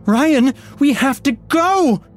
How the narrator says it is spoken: Heather shouted

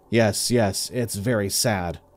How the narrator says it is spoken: Earl said in a calm, flat voice

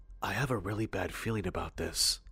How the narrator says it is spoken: Kenny, whose throat was suddenly gone dry as a bone, whispered to Jacob and said

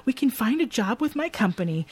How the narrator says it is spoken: excitedly telling her

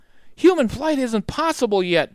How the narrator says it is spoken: Jack cried

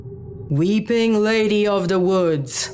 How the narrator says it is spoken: Charles finally bellowed

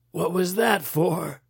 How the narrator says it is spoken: Kaufman wheezed

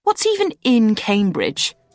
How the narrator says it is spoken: I ranted bitterly to AJ

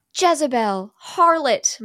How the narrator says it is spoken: mother screams

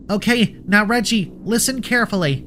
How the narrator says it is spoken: Luna shouted

